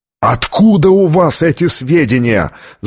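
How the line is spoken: Yell. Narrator (Russian): завопил Оливетти

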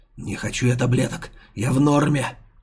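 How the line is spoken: Growled. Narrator (Russian): рыкнул Зубрила

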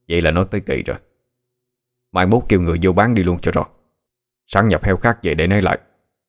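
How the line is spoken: Cold speech. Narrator (Vietnamese): Ông Thức lạnh lùng nói

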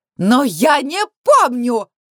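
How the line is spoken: Mother shrieking. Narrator (Russian): взвизгнула мама

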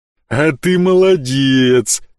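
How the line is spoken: Booming rumble. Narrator (Russian): прогудел громила

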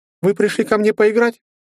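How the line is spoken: Ringing childlike sly question. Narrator (Russian): спросила она звонким детским голоском, лукаво улыбаясь

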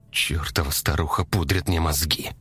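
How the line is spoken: Whispered curse. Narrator (Russian): выругался он шепотом

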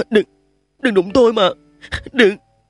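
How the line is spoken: Trembling, sobbing. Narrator (Vietnamese): Trình Lâm run rẩy khóc ròng nói

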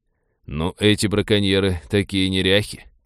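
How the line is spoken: Muttering. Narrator (Russian): пробормотал Винни

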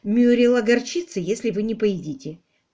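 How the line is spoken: Gentle remark. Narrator (Russian): мягко заметила Дейзи

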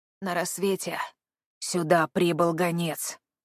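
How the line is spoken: Hoarse. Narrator (Russian): прохрипел солдат

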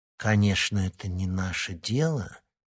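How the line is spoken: Quiet speech. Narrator (Russian): тихо проговорила Вероника

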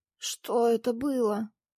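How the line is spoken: Hoarse wheeze in pain. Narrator (Russian): просипел Всеволод, морщась от боли

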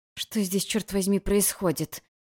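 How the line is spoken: Hissed. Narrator (Russian): прошипела я

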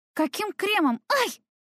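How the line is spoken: Startled squeal. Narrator (Russian): Я взвизгнула

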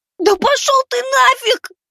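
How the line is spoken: Shrieking. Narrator (Russian): Завизжал я

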